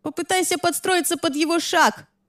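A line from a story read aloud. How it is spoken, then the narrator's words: Shouting from a distance. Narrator (Russian): прокричала Лиззи с края матов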